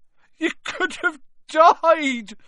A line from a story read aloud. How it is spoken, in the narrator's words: sobbed Hagrid